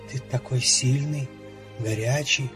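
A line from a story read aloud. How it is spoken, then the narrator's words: Whisper. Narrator (Russian): шептала она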